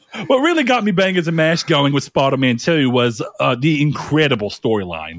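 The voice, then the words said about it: Bad put-on Australian accent. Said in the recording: “I've completely given up on a British accent ... I'm just doing this whole thing in a really fucked up Australian accent”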